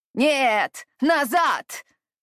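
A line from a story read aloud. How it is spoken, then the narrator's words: Sharp shout. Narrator (Russian): резко крикнула Нима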